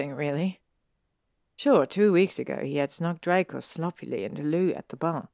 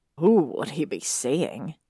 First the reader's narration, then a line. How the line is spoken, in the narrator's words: On scoffs